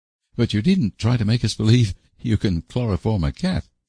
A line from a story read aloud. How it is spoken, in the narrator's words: laughed Anne